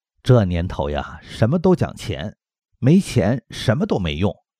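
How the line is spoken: Smiling. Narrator (Chinese): 就笑眯眯地跟我说

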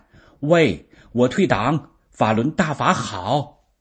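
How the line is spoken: Shouting over the phone. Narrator (Chinese): 对方听明白真相，当时在电话里就喊

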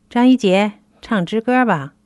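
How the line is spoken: Halting command. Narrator (Chinese): 恶警王宇叫停说

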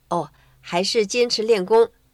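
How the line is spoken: Embarrassed. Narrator (Chinese): 她不好意思说

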